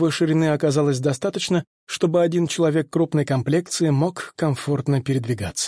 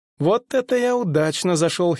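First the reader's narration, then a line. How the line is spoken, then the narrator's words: Quiet giggle to himself. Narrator (Russian): хихикнул про себя Тео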